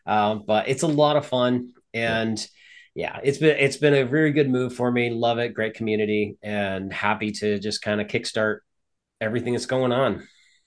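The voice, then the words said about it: Slight Southern twang. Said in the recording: “a little twang in the voice every few words”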